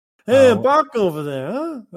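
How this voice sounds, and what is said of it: Imitates another person's voice. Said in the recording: “how Sylvester Stallone says Baka ... a little bit like that. That was very good.”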